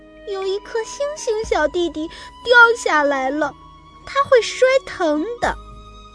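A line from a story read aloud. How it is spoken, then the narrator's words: Tearful young voice. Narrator (Chinese): 哭 小刺猬说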